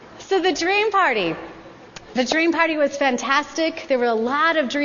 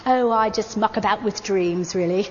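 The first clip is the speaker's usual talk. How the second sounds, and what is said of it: Put-on English accent. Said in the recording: “with the best English accent I could muster”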